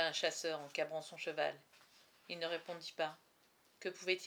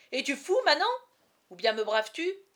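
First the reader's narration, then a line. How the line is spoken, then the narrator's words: Exclaiming. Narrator (French): s'écria Guilhem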